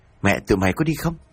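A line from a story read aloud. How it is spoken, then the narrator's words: Sharp hushed scold. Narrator (Vietnamese): quát khẽ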